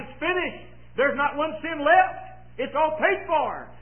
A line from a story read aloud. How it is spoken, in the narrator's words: he cried